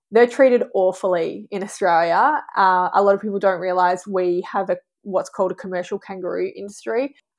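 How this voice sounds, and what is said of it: Australian accent. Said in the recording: “iconic to Australia. Every time I've gone overseas and someone hears my accent, the first thing they talk to me about is kangaroos”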